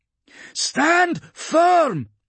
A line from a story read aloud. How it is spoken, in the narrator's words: she shouted